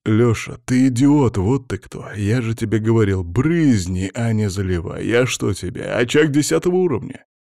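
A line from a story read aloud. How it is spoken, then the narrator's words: Angry growl. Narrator (Russian): рыкнул на него Филимон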